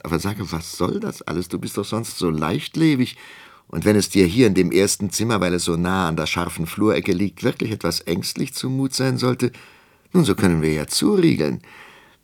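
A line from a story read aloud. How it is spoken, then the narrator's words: Laughing. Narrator (German): lachte Armgard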